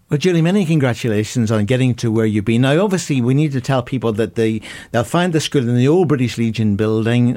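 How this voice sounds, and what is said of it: Irish accent. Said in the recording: “my Irish accent, you know, sometimes misleads people”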